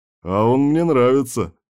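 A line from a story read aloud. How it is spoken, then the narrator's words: Short chuckle. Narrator (Russian): хохотнул Кирк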